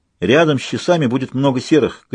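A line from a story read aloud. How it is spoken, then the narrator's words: Shouting. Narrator (Russian): крикнул он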